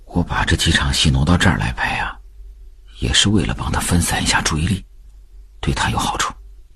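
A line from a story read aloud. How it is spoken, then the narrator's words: Quiet. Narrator (Chinese): 他又背对着秉坤小声说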